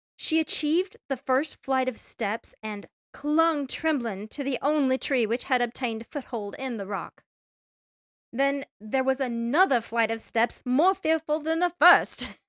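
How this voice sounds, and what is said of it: Reads aloud in a put-on accent. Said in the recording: “your accent's fantastic, by the way ... Oh, this one's great.”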